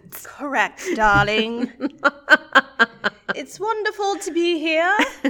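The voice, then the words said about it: Put-on weird Mary Poppins-style accent. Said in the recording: “Now have a weird accent. ... Our own Mary Poppins.”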